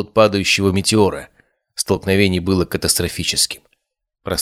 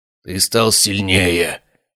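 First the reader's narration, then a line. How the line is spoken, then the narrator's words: Hoarse breathless rasp. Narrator (Russian): прохрипел Бартоломео, уклоняясь от очередной серии ударов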